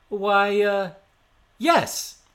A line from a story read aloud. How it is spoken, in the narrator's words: he shouted